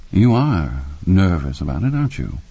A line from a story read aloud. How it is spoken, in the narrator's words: Spangler said in a mildly wondering tone